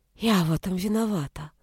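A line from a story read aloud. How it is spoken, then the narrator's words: Whispered. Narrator (Russian): прошептала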